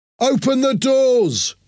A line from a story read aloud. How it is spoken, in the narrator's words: shouted